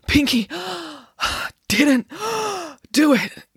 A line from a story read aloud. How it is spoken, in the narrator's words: gasped Friday